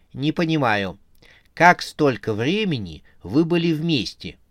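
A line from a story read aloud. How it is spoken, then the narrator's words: Calm speech. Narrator (Russian): спокойно говорила она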